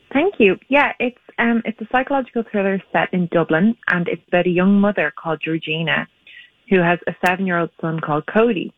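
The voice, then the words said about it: Irish accent. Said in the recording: “calling Ireland ... Your accent's so darling.”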